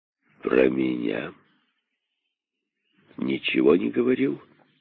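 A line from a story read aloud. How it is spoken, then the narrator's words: Gloomy question. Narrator (Russian): спросил король, мрачно выслушав рассказ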